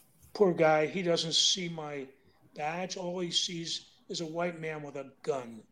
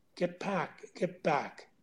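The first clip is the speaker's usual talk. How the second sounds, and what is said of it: Whispering. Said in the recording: “I'm whispering”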